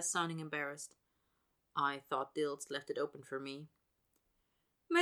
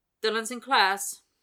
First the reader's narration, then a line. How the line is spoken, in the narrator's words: he blurts